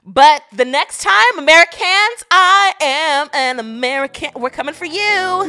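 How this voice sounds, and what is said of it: Put-on American accent. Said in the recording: “I'm giving you the best of my American accent”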